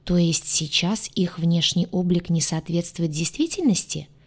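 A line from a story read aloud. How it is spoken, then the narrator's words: Plain question. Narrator (Russian): спросила Кейра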